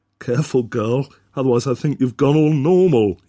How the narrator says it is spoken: shouted back

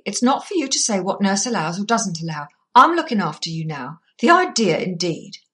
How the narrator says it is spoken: said Emily angrily

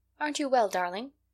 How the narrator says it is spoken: inquired Katy anxiously

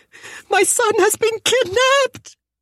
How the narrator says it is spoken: the woman screamed

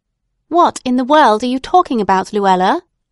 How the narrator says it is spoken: said her mother impatiently

